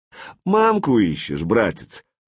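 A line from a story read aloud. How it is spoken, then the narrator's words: Mocking question. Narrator (Russian): насмешливо поинтересовался Владимир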